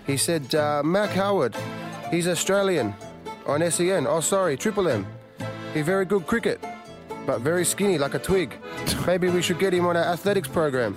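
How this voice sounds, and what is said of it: Put-on Chinese accent. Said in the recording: “the sort of with the Chinese accent”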